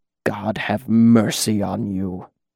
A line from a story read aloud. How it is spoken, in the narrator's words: he said in a cold, trembling voice